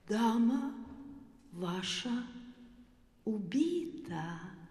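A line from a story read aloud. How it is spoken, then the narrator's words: Gentle. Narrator (Russian): ласково сказал Чекалинский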